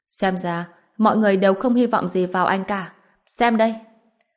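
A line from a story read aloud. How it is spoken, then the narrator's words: Bursting into loud laughter. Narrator (Vietnamese): Hoa Khải Minh bật cười lớn nói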